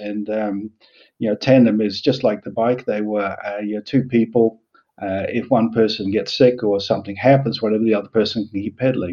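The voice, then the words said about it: Mixed New Zealand-Australian English accent. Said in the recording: “I was born in New Zealand and I moved to Australia. Spent 3 years in Australia and then went to the UK for a year, and then I've been in the Netherlands for the last 30 or so years ... there's a bit of everything in the accent.”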